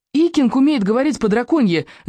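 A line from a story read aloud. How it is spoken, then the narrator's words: Very loud shout. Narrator (Russian): закричал рыбьянок на этот раз очень громко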